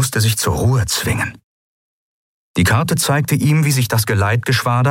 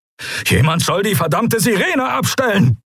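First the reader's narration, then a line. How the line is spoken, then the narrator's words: Barked order. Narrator (German): bellte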